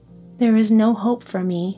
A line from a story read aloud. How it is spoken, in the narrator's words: she said sadly